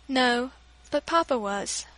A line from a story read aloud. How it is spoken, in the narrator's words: she said in a trembling tone